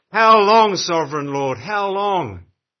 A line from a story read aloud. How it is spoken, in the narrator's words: the martyrs in Revelation 6, crying out at the top of their voices